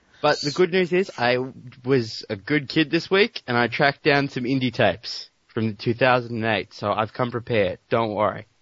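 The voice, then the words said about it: Strong Australian accent, hard to understand. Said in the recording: “It's so hard to understand you with that damn accent.”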